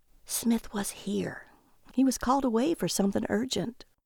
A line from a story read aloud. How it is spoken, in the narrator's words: The agent whispered to them